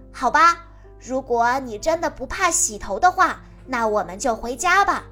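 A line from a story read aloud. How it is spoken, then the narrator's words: Deliberately loud. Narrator (Chinese): 丹尼故意说的很大声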